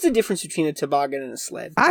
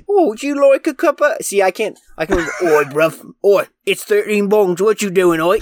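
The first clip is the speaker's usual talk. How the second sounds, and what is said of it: Grimy British accent put on. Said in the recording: “the only good British accent I can do, and I don't know if it's good, is like the like grimy”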